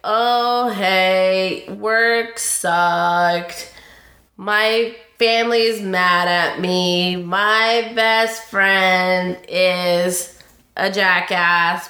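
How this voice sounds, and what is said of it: Gloomy, mopey cartoon donkey voice. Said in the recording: “like Eeyore ... my best Eeyore impersonation”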